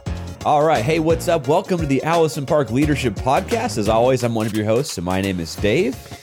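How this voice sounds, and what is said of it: Gravelly, hoarse radio-like voice. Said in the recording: “happens to be having a really good voice day ... You sound like you got radio voice today ... I've had a summer cold for a couple of days ... you'll have to put up with the gravelly tones today”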